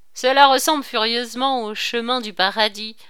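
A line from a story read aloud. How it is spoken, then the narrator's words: Exclaiming. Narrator (French): s'écria Beaupied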